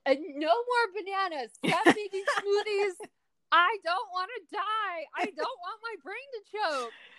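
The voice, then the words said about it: Screaming loudly in mock panic. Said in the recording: “I'm screaming... We got a scream.”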